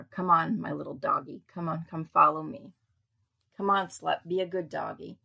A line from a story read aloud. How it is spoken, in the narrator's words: Miss Summer's friend said, laughing